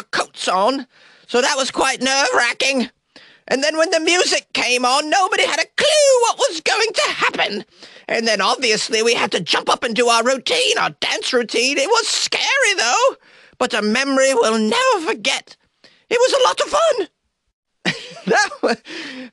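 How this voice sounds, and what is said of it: Put-on Monty Python British woman accent. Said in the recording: “That was the best Monty Python doing a British woman accent I've ever done”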